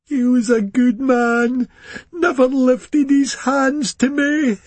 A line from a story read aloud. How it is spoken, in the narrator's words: she moaned deliriously